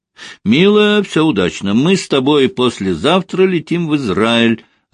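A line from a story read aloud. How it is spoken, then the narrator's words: Joyful announcement. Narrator (Russian): радостно объявил Костя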